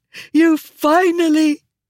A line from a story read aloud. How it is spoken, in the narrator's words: She gasped, still sobbing hysterically